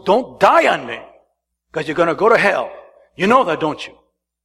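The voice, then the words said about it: Raised, louder voice. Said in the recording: “I raise my voice,”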